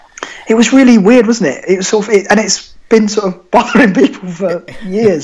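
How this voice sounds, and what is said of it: Kent English accent. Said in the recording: “judging from your accent, that isn't the part of the world you're from ... you're a Kent boy”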